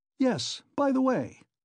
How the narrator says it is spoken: he cried, seemingly suddenly delighted

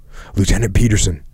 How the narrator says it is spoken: the radio operator pleaded

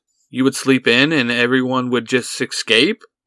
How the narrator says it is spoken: Angelique laughs

